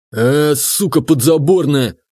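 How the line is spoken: Growled. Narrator (Russian): прорычал отставной нефтяник

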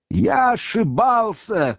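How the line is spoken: Hoarse shouting. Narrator (Russian): кричал совсем охрипший Левий

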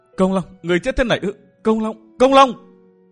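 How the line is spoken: Grief-stricken crying out. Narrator (Vietnamese): Thôi Linh Chi kêu lên áo nùng

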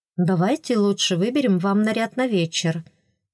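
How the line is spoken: Soft gentle. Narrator (Russian): мягко сказала старшая фрейлина

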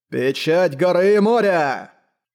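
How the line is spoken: Roaring, head thrown back. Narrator (Russian): Шуйдун Лю запрокинул голову и взревел

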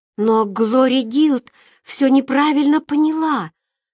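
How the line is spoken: Trembling voice. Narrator (Russian): дрожащим голосом сказала Роберта

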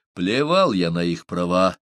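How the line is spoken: Irritated snap. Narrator (Russian): раздраженно бросил он

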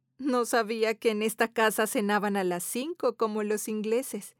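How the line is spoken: Said laughing. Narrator (Spanish): Teresa dice entre risas

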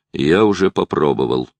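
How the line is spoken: Grumbling. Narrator (Russian): проворчал

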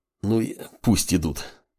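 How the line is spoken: Nauseous muttering mage. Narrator (Russian): пробормотал маг, стараясь справиться с рвотными позывами

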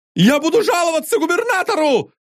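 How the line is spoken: Sudden thin falsetto shout. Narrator (Russian): закричал Сильфидов внезапно тонким фальцетом, глубоко и окончательно поняв, что терять ему нечего

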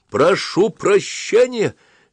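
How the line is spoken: Shouting. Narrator (Russian): закричал ротмистр

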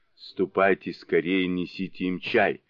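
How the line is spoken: Plain. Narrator (Russian): сказала дева

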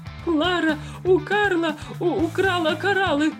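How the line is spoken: Frenzied yelling ruler. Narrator (Russian): иступленно орал правитель

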